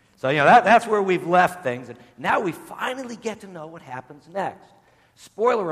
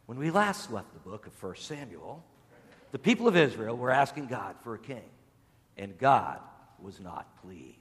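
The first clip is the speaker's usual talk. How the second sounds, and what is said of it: Dramatic TV announcer voice. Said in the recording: “with my best TV announcer voice”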